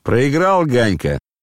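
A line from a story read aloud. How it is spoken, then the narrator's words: Shouted. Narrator (Russian): крикнул он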